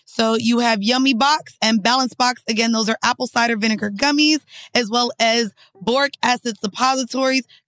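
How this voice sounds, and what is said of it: Raspy voice. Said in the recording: “raspy voice”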